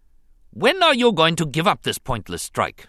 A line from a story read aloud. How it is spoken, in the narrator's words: he snapped, to emphasize his displeasure